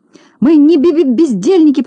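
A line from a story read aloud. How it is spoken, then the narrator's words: Tearful babbling. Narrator (Russian): пролепетала, чуть не плача Селедочка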